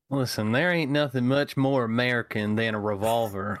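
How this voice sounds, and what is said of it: Put-on Southern accent. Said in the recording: “You must do the entire podcast in a Southern accent now. You've committed.”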